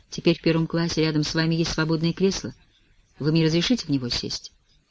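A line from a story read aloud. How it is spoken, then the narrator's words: Hesitant voice. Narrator (Russian): я нерешительным голосом говорю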